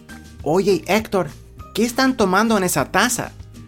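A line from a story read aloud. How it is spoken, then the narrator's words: Whispering. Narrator (Spanish): José se inclinó hacia su primo y le susurró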